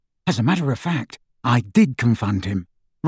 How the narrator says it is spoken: Ron whispered to Harry

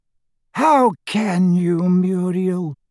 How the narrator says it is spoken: groaned Doge

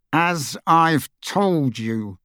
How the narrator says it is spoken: he said through gritted teeth

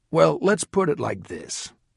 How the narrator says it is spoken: Ron answered coolly

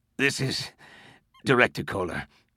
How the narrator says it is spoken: he said, wheezing

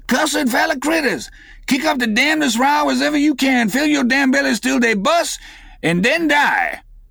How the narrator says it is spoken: raised his shrill voice and cried

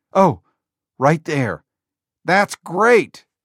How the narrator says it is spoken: Jobs yelled

